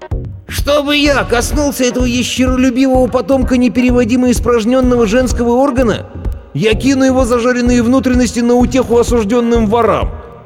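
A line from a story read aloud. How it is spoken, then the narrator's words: Shrill squeal. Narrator (Russian): тучный принц завизжал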